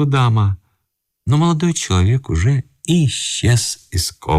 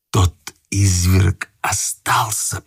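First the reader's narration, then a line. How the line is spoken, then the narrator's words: Young man whispering. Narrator (Russian): прошептал молодой человек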